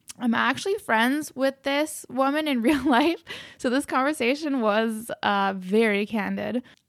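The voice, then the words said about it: Raspy, low-energy voice. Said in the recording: “raspy voice and low energy in this episode... my voice is noticeably a little hard to understand at some parts”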